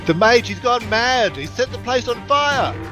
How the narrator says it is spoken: Beltis yells out

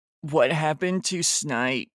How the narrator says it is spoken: I growled

